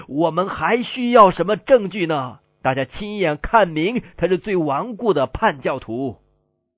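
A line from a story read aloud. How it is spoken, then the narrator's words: Furious group shouting. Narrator (Chinese): 主教们大为震怒，喊叫说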